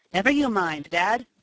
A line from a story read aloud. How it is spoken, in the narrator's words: Tom exclaimed